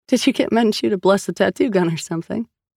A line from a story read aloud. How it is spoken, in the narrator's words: Sal asked, laughing